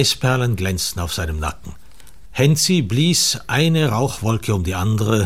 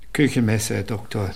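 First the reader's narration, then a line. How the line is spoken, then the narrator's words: Quiet, sad peddler. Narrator (German): sagte der Hausierer leise und traurig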